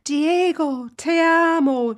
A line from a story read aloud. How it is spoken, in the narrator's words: cried passionately